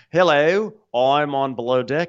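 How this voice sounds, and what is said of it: Put-on Australian accent. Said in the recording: “I have an Australian accent”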